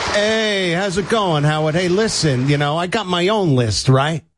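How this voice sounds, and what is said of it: Andrew Dice Clay impression. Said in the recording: “all of our celebrity impersonators ... Andrew Dice Clay”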